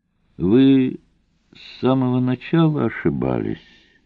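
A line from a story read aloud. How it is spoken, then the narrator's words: Gentle, dragon. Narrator (Russian): мягко сказал дракон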